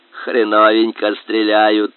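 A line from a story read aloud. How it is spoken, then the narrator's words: Flat grunting from well. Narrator (Russian): хрюкал он из колодца фанерным голосом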